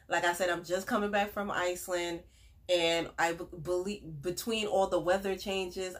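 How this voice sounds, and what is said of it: Raspy, congested voice. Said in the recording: “excuse my voice is a little raspy. ... I got sick. ... I'm still very stuffy”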